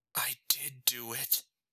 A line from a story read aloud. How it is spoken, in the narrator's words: whispered to nobody